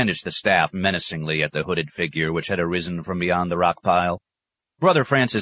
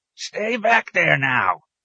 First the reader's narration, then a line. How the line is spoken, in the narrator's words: he croaked